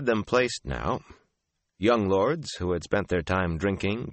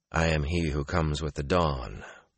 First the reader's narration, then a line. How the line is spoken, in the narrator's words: Rand told them quietly